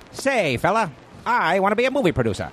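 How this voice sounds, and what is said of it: Parody old-timey movie accent. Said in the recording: “like a parody of old ... style ... the accent”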